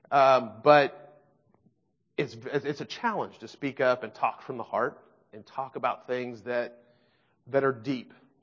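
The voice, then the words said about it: Emotional voice. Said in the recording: “I'm a fairly emotional guy. So you kind of hear that in my voice.”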